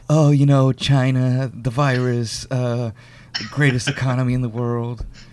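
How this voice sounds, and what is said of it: Imitates another person's voice. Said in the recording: “like Trump, he has this whole”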